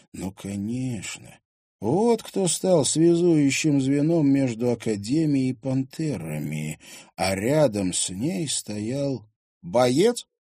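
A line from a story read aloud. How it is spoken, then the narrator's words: Breathed out. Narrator (Russian): выдохнул Тимофей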